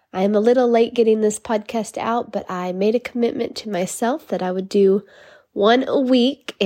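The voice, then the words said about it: Congested, nasal voice. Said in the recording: “I sound a little congested because I am. I have a little cold ... I just have the sinus pressure and kind of the nasally sound”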